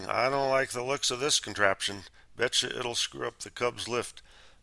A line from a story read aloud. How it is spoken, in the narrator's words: Sheldon mumbling